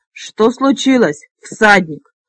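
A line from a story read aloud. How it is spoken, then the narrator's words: Barking. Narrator (Russian): рявкнул Фекс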